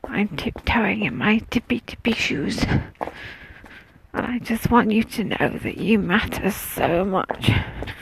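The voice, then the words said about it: Whispering. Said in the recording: “I'm whispering because I'm walking past people's houses now. I don't want them to think I'm trying to wake them up”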